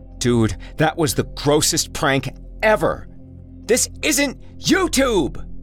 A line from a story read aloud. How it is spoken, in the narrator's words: Jesse shouted after him, but clearly too frightened